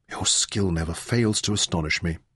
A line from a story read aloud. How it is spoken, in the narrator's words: Merrin whispered